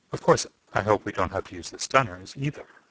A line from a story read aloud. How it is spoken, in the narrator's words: said calmly